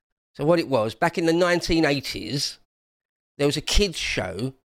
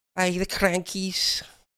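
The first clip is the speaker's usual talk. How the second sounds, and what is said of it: Bad put-on Scottish accent. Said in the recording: “That was a terrible Scottish accent.”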